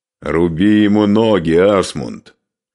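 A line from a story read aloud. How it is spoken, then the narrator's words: Loud. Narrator (Russian): громко сказал Скарпи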